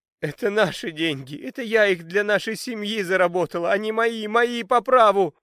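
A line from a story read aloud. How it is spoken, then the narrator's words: Sobbing girl. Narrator (Russian): рыдала с пола чумазая Марьям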